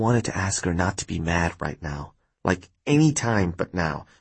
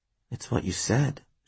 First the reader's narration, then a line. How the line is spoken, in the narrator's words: she muttered